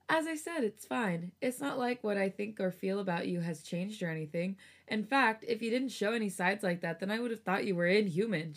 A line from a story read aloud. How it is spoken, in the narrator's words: Changmin joked